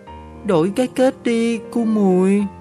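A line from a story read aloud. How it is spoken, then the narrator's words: Whining. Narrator (Vietnamese): Con tủn rên rỉ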